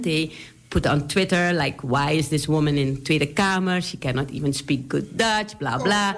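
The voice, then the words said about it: Surinamese accent. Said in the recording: “I speak with a Surinamese accent”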